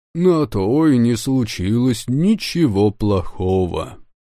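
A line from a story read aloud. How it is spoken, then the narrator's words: Even, level tone. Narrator (Russian): ровным тоном проговорил верховный шаман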